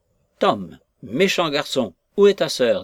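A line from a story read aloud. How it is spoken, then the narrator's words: Desperate voice. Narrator (French): dit Madame Tulliver d'une voix désespérée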